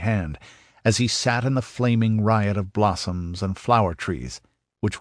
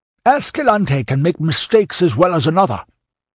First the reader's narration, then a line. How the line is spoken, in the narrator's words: snapped Dion, sweating at the mere thought of failure